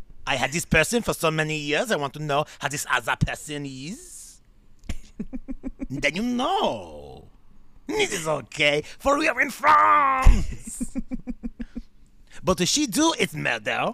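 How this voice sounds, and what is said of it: Put-on French accent. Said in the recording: “The French accent's not terrible. The French accent's not terrible ... a really bad French accent”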